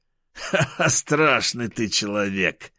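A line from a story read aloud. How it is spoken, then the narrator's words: Laughing. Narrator (Russian): рассмеялся Васильков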